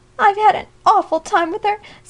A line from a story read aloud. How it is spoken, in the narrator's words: sobbed Alexia, her face buried in her handkerchief